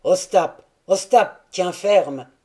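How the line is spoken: Shouting. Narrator (French): s'écria Taras

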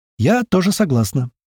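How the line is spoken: Joyful, smiling. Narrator (Russian): радостно сообщила та, весело улыбаясь

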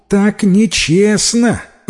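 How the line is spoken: Exclaiming. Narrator (Russian): воскликнула Юань Мэй

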